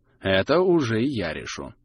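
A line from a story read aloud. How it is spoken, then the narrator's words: Gloomy reply. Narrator (Russian): также мрачно ответил Мангус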